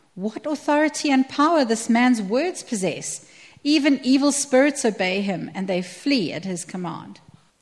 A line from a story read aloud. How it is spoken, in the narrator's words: Amazed, the people exclaimed